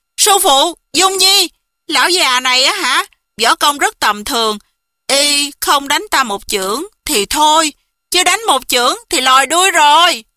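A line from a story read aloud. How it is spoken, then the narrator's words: Loud laughing exclamation. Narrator (Vietnamese): Quá Tĩnh hô hô cười rộ, kêu lên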